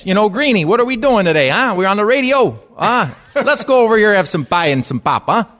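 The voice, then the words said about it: High-pitched put-on Chicago accent. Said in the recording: “But the Chicago guys, when you're high-pitched like this ... It was just the Chicago one he did”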